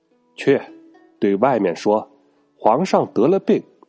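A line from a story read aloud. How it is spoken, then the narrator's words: Loud command. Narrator (Chinese): 他又高声命令跟随的大臣们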